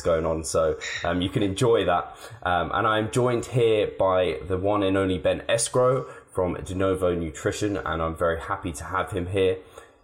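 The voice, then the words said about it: Deep, sore-throated voice. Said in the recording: “my voice sounds a little bit off this week, I have got a slight sore throat and I've got that deep, dark, sexy voice”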